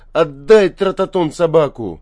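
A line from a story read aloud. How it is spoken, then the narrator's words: Near shout. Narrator (Russian): чуть не крикнул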